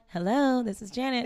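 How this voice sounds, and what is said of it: Polished phone voice. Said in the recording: “phone voice”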